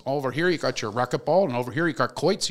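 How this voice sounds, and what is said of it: Pennsylvania coal miner accent. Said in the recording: “He's got this like Shemokin coal miner accent from Pennsylvania.”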